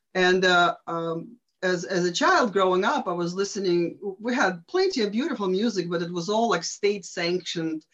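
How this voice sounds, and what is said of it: Eastern European accent. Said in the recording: “as you can tell from my accent, behind the Iron Curtain.”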